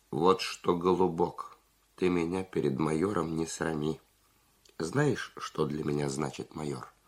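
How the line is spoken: Calm but firm. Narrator (Russian): Зубарев спокойно, но решительно сказал

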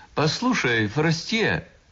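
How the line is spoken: Shouted. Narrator (Russian): кто-нибудь уже кричал

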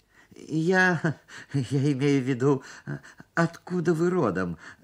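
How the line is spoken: Stammering. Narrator (Russian): заикался я

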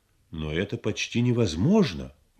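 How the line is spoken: Exclamation. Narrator (Russian): воскликнул он

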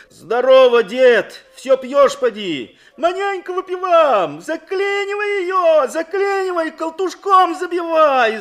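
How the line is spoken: Yelled. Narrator (Russian): заорал Фадей на парня

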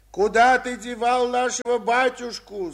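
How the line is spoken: Furious crowd yelling. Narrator (Russian): завопило разозленное до неистовства сонмище

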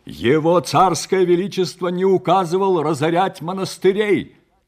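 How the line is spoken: Loud interruption. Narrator (Russian): Также громко перебил его Чернец

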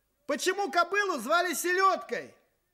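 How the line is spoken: Cheerful question from audience. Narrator (Russian): спросили из зала весело

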